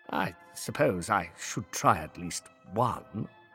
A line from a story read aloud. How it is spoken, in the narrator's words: he muttered to himself